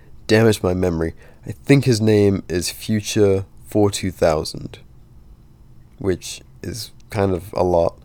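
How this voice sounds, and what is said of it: Calm, soothing BBC-style voice. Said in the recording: “You made me do the BBC voice ... I'm definitely fucking lullabying everyone right now ... I'm usually more lively”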